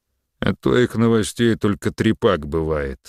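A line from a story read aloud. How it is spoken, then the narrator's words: Knowing grumble. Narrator (Russian): сознанием дела пробурчал Мерин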